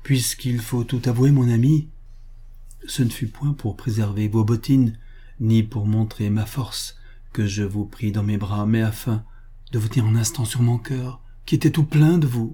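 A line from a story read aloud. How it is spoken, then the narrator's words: Slightly trembling, mustering courage. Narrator (French): Alors il reprend courage et dit, d'une voix qui tremble un peu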